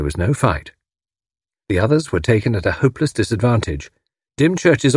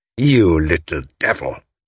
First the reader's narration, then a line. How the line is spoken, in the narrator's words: he snarled